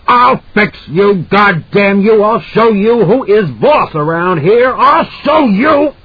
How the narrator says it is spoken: Jack was shouting into her face

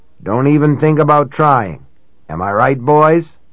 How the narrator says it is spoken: They murmured growling agreement, the sort you could hear coming from any present-day gang of headbangers or taggers

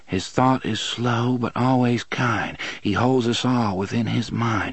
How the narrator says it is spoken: Susanna murmured

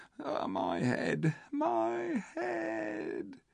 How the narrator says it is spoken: he heard the ape once more whimpering

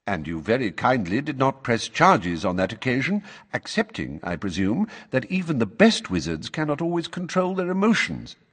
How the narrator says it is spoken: said Dumbledore calmly

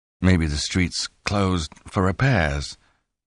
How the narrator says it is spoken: Lonnie muttered

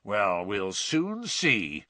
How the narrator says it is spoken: growled Mr

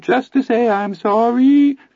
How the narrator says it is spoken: Teddy wavered in a dreadful little Anthony falsetto

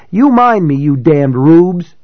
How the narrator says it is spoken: she shouted

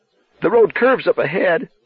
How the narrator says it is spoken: Bobby said hoarsely

